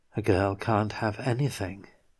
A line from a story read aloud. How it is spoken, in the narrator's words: She more quietly added